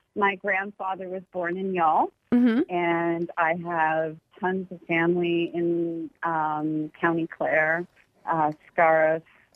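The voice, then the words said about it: Canadian English accent. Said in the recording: “I can hear the Canadian accent.”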